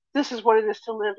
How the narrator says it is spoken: he cried

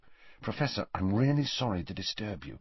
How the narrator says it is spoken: said Harry as quietly as possible

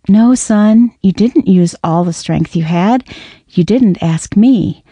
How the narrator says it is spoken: The father corrected kindly

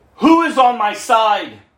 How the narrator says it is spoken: shouted

